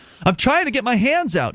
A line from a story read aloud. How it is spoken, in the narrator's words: Derek gasped